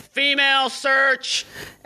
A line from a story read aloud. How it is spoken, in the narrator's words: Jimmy yells